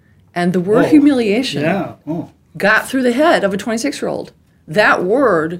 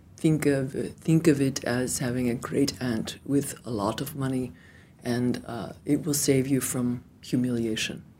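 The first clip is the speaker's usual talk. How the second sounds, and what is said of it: Imitated Serbian accent. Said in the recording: “he was Serbian, he had a Serbian accent.”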